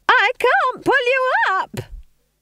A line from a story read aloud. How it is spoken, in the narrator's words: They screamed